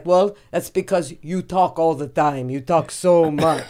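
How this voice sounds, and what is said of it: Weak imitated Brazilian accent. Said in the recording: “my impression. He's Brazilian ... You gotta nail that accent more, because I don't know what you're doing”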